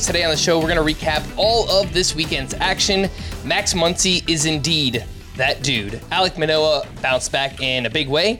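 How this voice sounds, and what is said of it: Hoarse, worn-down voice. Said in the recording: “Apologies if my voice sounds terrible, if it sounds worn down ... lots lots of shouting”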